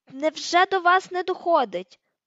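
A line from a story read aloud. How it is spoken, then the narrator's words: Shout. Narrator (Ukrainian): крикнув Гаррі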